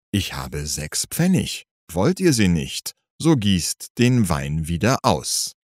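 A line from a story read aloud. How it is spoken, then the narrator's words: Calm. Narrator (German): Eulenspiegel sagte ruhig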